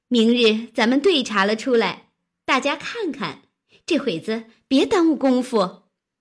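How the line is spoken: Laughing. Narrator (Chinese): 湘云笑道

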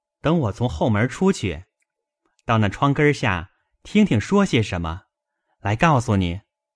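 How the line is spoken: Laughing. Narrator (Chinese): 宝玉笑道

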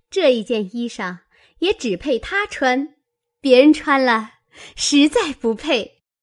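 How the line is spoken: Laughing. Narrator (Chinese): 湘云笑道

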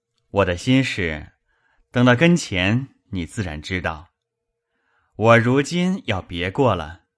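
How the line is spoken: Sneering. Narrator (Chinese): 柳香莲冷笑道

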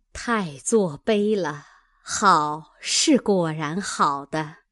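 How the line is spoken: Group, admiring sighs. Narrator (Chinese): 众人点头感叹说

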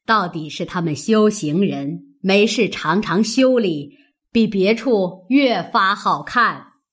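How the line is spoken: Laughing. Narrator (Chinese): 贾母笑道

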